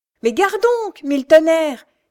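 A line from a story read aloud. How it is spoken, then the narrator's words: Coachman shouting, straining. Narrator (French): criait le cocher en s'efforçant de retenir ses bêtes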